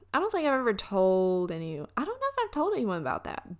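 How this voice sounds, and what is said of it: Alabama Southern US accent. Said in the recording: “I'm from Alabama ... I hate my accent”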